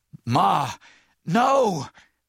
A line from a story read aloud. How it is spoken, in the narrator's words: Miles gasped